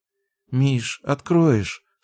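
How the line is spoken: Sleepy mumble. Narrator (Russian): сонно пробормотала Даша

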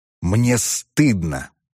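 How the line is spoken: Hissed through teeth. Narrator (Russian): просвистел он сквозь зубы

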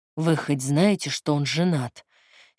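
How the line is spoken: Hoarse reproach. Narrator (Russian): Севшим голосом укорил

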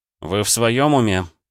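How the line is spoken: Groaning. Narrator (Russian): простонал я

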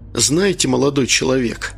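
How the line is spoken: Calm. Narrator (Russian): спокойно сказал капитан

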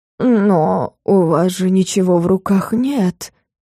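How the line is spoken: Drawling. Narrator (Russian): протянул поближе подошедший Фелис

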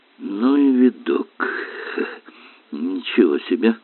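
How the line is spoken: Muttered with broken laugh. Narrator (Russian): с прерывистым смешком пробормотал Эллери

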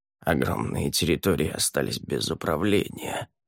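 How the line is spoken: Muttered. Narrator (Russian): пробормотала Селин

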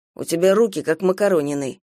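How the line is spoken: Gloomy. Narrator (Russian): мрачно сказала Гидеон

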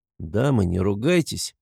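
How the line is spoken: Conciliatory mediating tone. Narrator (Russian): парламентерским тоном

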